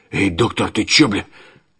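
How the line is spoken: Hoarse rasp. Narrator (Russian): Петро прохрипел

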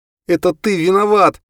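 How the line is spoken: Shouting. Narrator (Russian): крикнула она

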